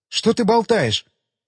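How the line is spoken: Exclamation. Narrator (Russian): воскликнула Бекки

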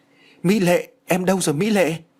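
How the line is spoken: Shocked cry. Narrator (Vietnamese): anh chàng đã bàng hoàng kêu lên

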